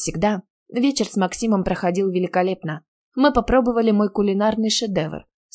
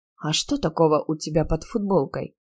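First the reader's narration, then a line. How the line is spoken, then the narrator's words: Sighing. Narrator (Russian): Я вздохнула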